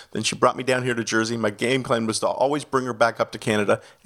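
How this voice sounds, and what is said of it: Slight Canadian accent. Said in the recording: “I'm a Canadian citizen, so you might catch a little bit of the accent throughout”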